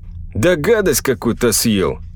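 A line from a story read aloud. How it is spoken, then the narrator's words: Lazy drawl. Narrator (Russian): лениво сказал один из санитаров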